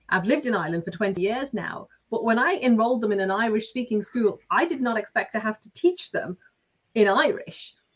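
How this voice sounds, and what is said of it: Lancashire English accent. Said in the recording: “as you can tell from my accent, I'm not Irish, I'm from Lancashire”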